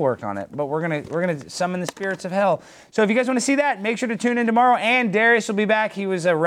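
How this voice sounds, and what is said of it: Usual voice. Nothing is said of it.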